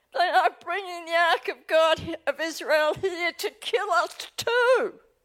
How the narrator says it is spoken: the people of Ekron they cried out

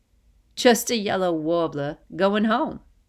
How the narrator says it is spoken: Brooklyn laughs

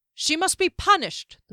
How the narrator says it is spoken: the man shouted again

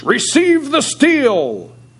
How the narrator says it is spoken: a scornful shout from the galleries

